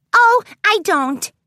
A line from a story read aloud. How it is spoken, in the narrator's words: Pinkie Pie chirped in response